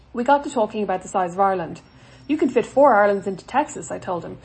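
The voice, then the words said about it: Mild Irish accent. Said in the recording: “Irish? ... Yes, I said. ... Your accent isn't that strong”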